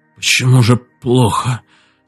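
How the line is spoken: Weak voice. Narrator (Russian): слабым голосом сказал Марков

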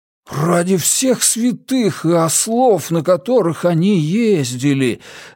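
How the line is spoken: Enchanted breathless exhale. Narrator (Russian): зачарованно выдохнул Джеспер

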